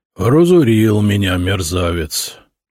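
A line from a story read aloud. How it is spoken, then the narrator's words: Muttering. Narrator (Russian): пробормотал купец Порфирьев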